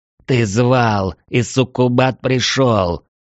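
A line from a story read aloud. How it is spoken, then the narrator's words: Deep guttural inhuman growl. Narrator (Russian): прорычала Мара утробным голосом, в котором не было ничего женского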